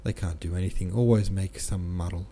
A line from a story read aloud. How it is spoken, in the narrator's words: he muttered